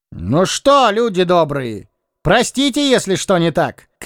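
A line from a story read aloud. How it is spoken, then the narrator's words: Shout. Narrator (Russian): крикнул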